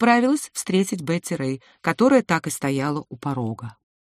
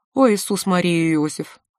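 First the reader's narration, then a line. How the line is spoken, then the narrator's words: Breathless exclamation. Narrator (Russian): выдохнула Бриджит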